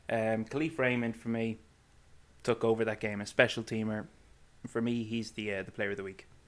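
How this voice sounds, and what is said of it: Irish Cavan accent. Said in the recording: “you butchered Detroit ... it's the Cavan accent”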